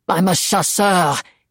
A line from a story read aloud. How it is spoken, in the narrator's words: he roared